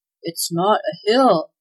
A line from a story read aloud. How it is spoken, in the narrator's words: gasped Claus